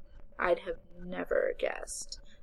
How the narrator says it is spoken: Maya said dryly

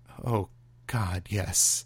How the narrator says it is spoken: Michael murmured, entranced

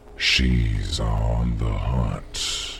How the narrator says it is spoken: he said, his voice a mellow, gentle taunt

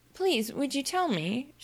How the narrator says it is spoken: she began, looking timidly

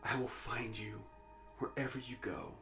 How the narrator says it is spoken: she whispered

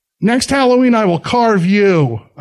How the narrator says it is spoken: I exclaim against the rain beginning to fall

